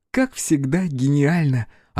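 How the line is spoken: Reply, then loud laughter. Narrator (Russian): ответила расхохоталась в голос

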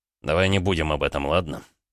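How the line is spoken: Grumbling mutter. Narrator (Russian): пробурчал он

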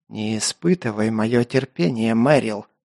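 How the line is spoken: Hissed, officer. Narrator (Russian): прошипел майор

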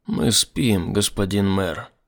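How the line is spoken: Level, even voice. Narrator (Russian): ровным голосом подтвердил Рескью

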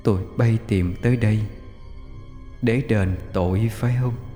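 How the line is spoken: Eerie echoing ghostly voice. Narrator (Vietnamese): một giọng nói âm u vang vọng của bóng trắng vang lên

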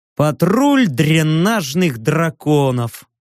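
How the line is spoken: Snorting. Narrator (Russian): хмыкнул я

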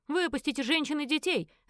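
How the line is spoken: Barked. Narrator (Russian): рявкнул он

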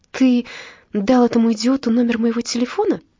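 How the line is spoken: Exclaiming. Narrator (Russian): воскликнула Ева Брит

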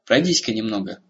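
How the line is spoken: Command, healer. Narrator (Russian): велела ему целительница

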